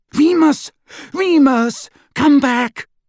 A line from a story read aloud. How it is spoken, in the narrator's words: Hermione cried